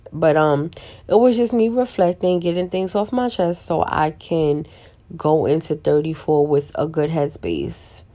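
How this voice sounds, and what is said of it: Slightly raspy voice. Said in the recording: “I'm kind of raspy a little bit”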